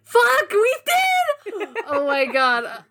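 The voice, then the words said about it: Screaming excitedly. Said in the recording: “I'm sorry for screaming.”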